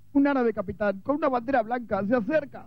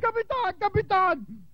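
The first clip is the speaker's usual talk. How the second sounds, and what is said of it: Shouting. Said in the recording (Spanish): “¿Por qué gritas en esa forma?”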